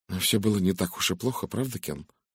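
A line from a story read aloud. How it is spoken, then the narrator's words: Quiet. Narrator (Russian): негромко произнесла она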